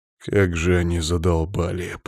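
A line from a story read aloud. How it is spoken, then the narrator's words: Through gritted teeth. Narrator (Russian): процедил Иван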